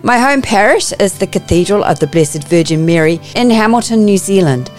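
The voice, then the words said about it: New Zealand accent. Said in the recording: “You may pick up from my accent that I'm a Kiwi.”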